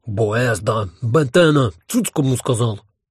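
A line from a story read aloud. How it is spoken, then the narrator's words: Growling in unison. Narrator (Russian): хором прорычал Гальт Бетенбальд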